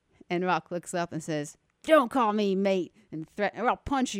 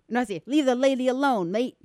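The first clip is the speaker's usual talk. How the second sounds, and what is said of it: Put-on Australian accent. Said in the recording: “he says with this Australian accent”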